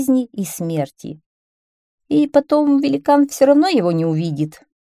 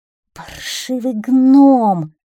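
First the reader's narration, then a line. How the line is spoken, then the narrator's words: Growl. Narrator (Russian): прорычал красавчик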